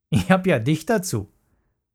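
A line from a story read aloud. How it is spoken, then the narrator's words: Laughing. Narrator (German): lachte Paule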